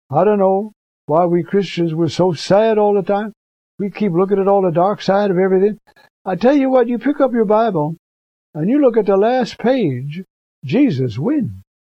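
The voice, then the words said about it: Put-on Southern preacher accent. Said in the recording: “you got to preach with a southern accent.”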